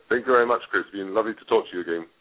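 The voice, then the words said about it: British accent. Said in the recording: “a lovely British accent”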